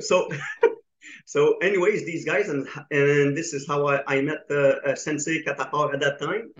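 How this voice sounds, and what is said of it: Slight French accent. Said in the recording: “as you can hear my accent ... you have like a bit of like a French accent”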